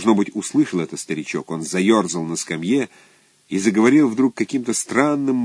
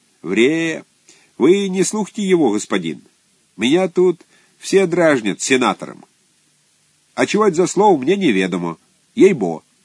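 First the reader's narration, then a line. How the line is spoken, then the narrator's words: Laughing peasant woman. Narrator (Russian): Баба рассмеялась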